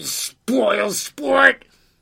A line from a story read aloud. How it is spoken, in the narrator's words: yelled the fly-by-night